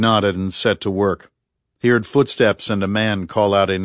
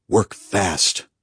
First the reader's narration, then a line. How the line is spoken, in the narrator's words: murmured Bunny